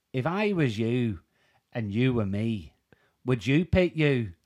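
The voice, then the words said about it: Put-on Northern Irish accent. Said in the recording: “the manager was Northern Irish ... what he said in his accent ... That was actually good.”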